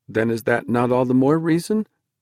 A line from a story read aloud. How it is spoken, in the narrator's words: Dennis began timidly